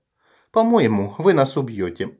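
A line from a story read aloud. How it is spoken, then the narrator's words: Calm, as to a child. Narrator (Russian): спокойно отвечает Анна, будто разговаривая с малым ребенком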